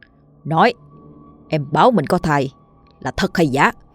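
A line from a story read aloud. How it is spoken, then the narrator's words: Harsh gritted question. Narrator (Vietnamese): gằn giọng hỏi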